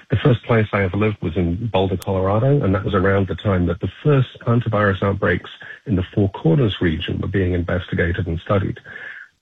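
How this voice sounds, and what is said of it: Non-American foreign accent. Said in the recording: “you can tell from my voice, by the way, that I'm not originally from the United States.”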